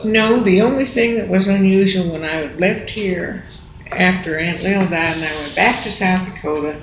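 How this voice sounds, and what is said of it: Southern American accent. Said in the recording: “Everyone was listening for my southern accent.”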